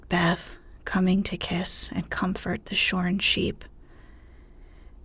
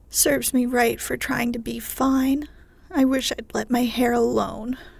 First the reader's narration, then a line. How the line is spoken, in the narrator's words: cried Meg petulantly